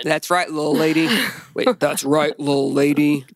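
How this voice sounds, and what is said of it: Deliberately lowered, deeper voice. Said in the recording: “I had to lower my voice a little bit.”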